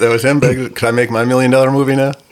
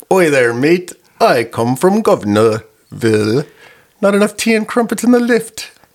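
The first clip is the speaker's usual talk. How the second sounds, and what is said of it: Put-on British accent. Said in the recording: “I was hoping to hear your British accent. ... is he like posh British”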